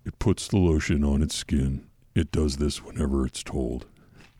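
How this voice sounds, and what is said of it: Deep creepy movie-villain impression. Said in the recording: “your Buffalo Bill impression ... Deeper. ... He's not whiny.”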